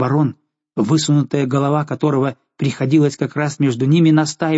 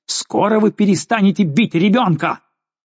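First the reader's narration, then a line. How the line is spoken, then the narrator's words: Impulsive trembling shout. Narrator (Russian): барон порывисто крикнул дрожавшим голосом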